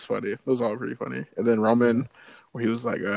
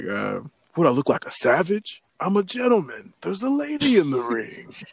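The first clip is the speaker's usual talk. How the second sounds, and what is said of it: Imitates another person's voice. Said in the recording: “your Roman impression is getting better every single ... week.”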